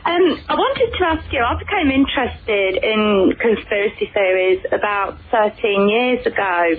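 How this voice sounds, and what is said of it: Leicester English accent. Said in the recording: “I love the accent. It's a Leicester accent,”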